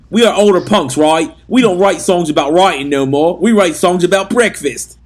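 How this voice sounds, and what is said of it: Heavy Cockney accent impression. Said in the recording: “I'm going to say Pete's heavy Cockney accent that he speaks in.”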